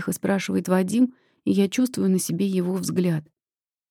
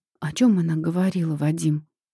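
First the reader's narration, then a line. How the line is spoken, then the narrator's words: Hoarse, fearful question. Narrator (Russian): Спрашиваю хрипло, потому что боюсь узнать правду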